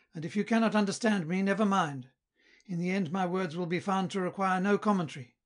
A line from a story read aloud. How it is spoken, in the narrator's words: cried Filina